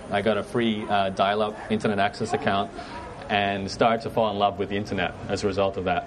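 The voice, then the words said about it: Mixed Canadian and Australian accent. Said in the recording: “I have an accent. Actually got Canadian background, but I'm born and raised in Brisbane ... I had a couple of parents who are Canadian ... I just picked up this accent, so it's a little bit of a mixed thing”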